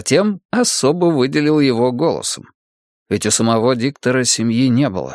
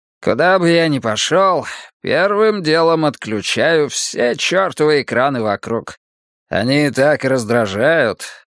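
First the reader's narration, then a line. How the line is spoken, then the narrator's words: Grumbling. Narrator (Russian): проворчал Ши Цян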